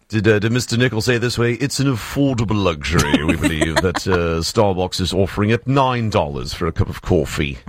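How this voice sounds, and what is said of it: Imitates another person's voice. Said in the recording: “I really like your impersonation.”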